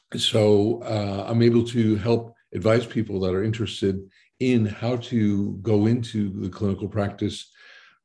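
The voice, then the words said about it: American accent. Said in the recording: “accent, indeed, that you're not originally from the Netherlands. You're from the US”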